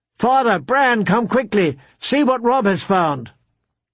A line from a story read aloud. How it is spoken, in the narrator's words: shouted down at them